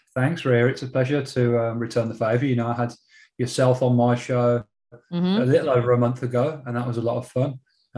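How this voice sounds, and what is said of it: English accent, not Australian. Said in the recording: “from England, because you're not going to hear the Aussie accent”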